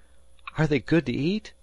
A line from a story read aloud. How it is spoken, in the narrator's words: Harvey panted as he lugged in another crab-covered cod